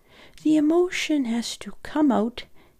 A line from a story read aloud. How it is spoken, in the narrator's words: said gently